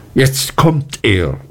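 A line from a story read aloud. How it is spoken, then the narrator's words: Calling out. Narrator (German): rief ich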